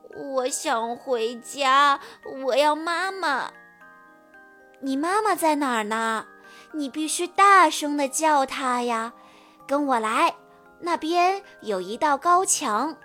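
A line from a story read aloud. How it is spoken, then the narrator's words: Sobbing. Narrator (Chinese): 欧丽抽泣着说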